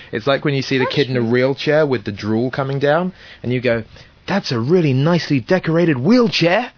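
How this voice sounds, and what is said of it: English accent. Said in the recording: “my accent, as if they've never heard anyone English before”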